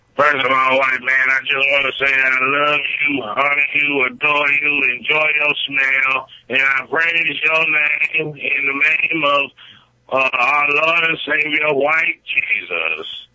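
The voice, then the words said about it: Impression of a cartoon character's voice. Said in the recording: “my best Uncle Ruckus impression”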